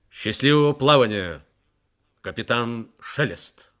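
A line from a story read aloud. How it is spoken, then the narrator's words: Loud and clear. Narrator (Russian): Харди громко и отчетливо произнес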